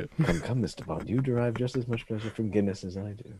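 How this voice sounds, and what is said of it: Roger Moore impression. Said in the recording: “Your Roger impression is so much better than mine... I was trying my best to do a Roger Moore impression”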